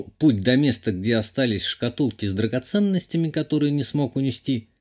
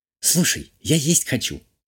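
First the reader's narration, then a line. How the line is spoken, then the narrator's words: Whispered. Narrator (Russian): прошептала Юля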